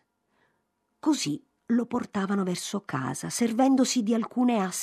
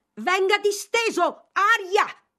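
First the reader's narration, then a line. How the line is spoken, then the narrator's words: Shouted. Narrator (Italian): gridò Mr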